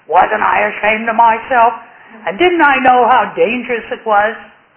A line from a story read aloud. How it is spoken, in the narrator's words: he yelled